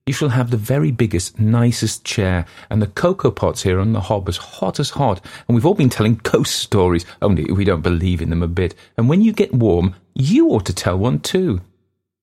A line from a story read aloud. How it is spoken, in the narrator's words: the youngest went on eagerly